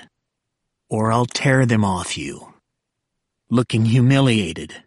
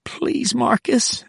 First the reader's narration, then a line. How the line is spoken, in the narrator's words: she whimpered